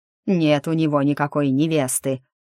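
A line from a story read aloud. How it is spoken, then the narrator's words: Growled. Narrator (Russian): рыкнул Агнар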